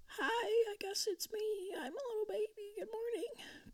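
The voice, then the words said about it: Baby voice. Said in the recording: “I do a good baby voice.”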